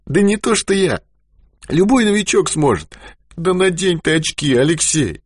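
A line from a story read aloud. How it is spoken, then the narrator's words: Sudden anguished shout. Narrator (Russian): Страдающим голосом закричал он вдруг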